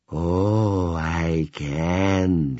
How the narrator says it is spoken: she breathed

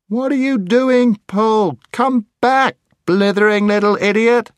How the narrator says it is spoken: shouted Scrub

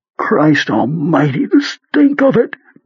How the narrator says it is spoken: Beaver cried

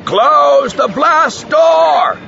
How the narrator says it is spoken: someone yelled

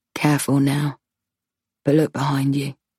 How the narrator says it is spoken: whispers, breath tickling my ear

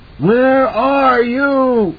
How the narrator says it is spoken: it screamed, but the voice was still only in his head

